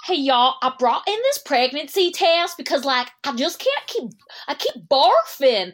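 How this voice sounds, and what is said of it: Put-on regional accent. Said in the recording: “the accent”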